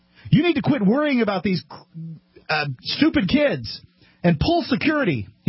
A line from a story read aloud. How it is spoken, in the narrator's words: screamed